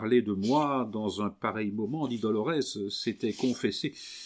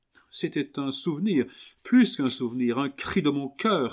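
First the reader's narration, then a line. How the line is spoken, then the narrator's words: Exclaiming. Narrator (French): s'écria Camille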